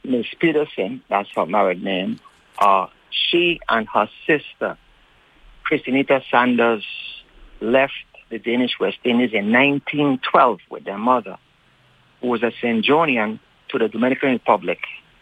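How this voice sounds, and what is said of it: Deliberately slow speech. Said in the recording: “I'm going to say this slowly, because when I get excited, I talk fast”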